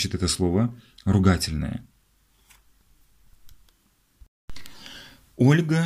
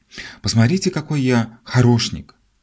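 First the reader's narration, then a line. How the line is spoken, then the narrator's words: Boy's exclamation. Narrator (Russian): этот же мальчик воскликнул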